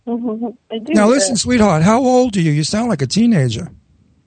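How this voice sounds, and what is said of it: Old Brooklyn accent. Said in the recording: “If you listen closely, you'll hear an old Brooklyn accent.”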